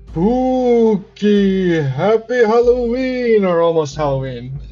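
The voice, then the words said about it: Spooky Halloween voice, more ho-ho-ho. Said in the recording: “I was trying to do the Halloween voice, but it almost became like a ho ho ho. I wanted to do like ooh, and it just kind of in my head turned into ho ho”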